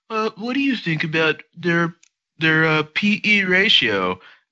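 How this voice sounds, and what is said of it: Imitates a TV news anchor voice. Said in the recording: “that your Trisha Takanawa impression?”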